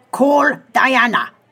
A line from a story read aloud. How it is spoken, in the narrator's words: barked